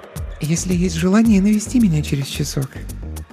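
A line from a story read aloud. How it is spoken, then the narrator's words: Whispering. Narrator (Russian): прошептала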